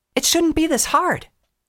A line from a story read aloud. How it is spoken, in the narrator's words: yelled to herself, hearing her own voice as though it were underwater